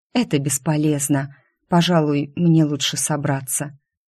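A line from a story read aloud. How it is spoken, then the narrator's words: Quiet reply. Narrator (Russian): тихо отозвалась я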